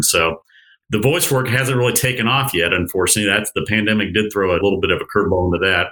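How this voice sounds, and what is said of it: Polished radio announcer voice. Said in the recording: “very, very nice radio voice”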